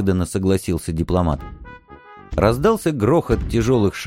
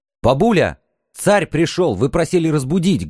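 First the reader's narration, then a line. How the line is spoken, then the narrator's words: Loud reminder. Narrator (Russian): громко напомнил я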